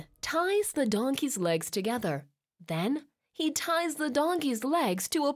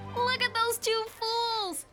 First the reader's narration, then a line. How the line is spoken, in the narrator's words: shouts one of them